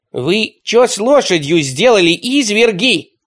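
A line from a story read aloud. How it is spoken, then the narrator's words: Yelling. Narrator (Russian): заорал он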